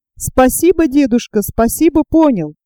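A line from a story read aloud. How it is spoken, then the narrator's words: Ringing voice. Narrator (Russian): отвечает тот звонким голосом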